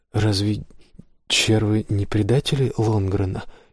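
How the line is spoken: Barely audible question. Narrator (Russian): едва слышно спросил он у Гилберта

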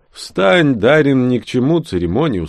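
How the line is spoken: Tired old dwarf. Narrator (Russian): усталым голосом произнес седовласый гном

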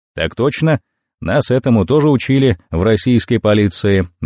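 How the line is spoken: Cheerful answer. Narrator (Russian): бодро ответил я

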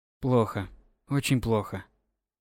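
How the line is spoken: Quiet. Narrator (Russian): произнёс тихо

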